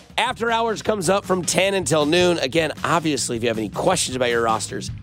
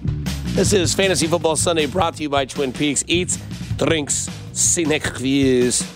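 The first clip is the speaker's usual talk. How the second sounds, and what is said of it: Put-on Russian accent. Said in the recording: “Not sure why the Russian accent came out there, but it sometimes does.”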